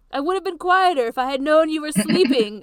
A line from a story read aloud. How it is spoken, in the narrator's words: Ayame says cheerfully and loudly